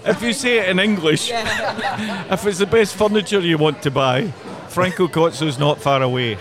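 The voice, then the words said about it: Scottish accent. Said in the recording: “you said that in Scottish ... I can't help it.”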